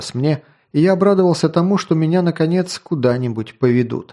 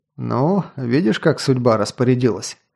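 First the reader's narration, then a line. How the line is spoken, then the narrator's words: Wry snort. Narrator (Russian): хмыкнул я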